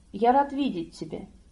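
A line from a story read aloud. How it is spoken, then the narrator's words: Tender. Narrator (Russian): нежно произнес он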